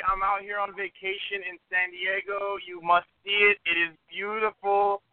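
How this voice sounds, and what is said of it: Hard-to-place mixed put-on accent. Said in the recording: “What is that accent? I can't quite place it. ... I have like a full arsenal of accents going on right now”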